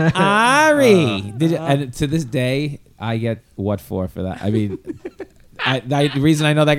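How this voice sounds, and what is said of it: Usual voice. Nothing is said of it.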